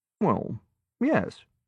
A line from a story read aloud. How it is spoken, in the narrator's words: Malcolm said calmly